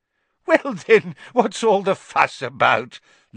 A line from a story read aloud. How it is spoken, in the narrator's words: laughed Fudge airily